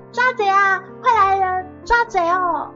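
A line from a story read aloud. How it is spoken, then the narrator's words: Loud shouting. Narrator (Chinese): 林香这个时候也大声的喊起来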